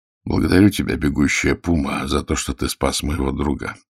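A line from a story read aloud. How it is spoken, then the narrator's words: Quiet speech. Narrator (Russian): тихо говорил Загорский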